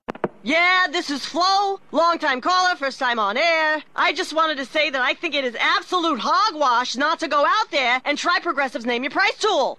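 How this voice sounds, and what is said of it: Sports talk radio caller voice. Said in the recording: “this is my impression of someone calling into Sports Talk Radio.”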